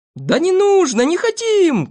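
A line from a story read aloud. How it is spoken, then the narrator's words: Group shouting. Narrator (Russian): кричали остальные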